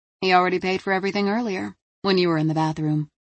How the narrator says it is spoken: the bartender said

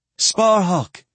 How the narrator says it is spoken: Sophronia cried from the bottom of the hill

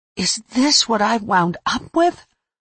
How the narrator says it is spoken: I asked melodramatically as I cried

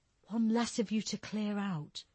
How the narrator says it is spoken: she whispered Carl's words under her breath

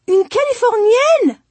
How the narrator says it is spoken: she exclaimed

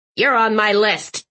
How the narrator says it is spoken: Aunt Tilly barked

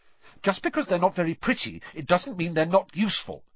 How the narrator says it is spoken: Hermione snapped

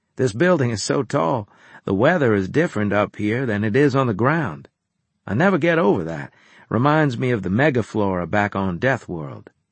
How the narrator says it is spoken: I said in a conversational tone

